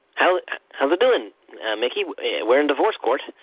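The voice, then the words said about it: Goofy cartoon character voice. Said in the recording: “my goofy impression ... I haven't finished my story as Goofy first”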